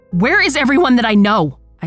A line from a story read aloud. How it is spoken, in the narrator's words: I scream